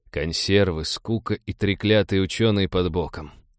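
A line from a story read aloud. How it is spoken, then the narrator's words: Grumbled. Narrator (Russian): проворчал Станислав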